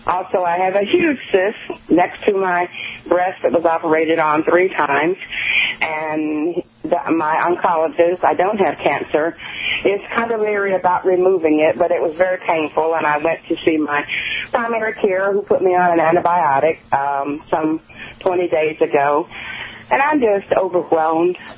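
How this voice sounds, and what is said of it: Southern American accent. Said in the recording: “I love your accent from Macon, Georgia”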